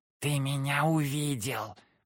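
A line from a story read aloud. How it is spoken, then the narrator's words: Hissed. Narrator (Russian): прошипела Кикимора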